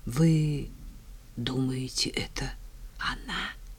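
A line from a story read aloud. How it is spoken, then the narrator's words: Hoarse question. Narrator (Russian): сипло поинтересовался Ефим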